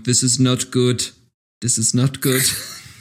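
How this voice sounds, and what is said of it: Put-on German accent. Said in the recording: “That sounds very German of you.”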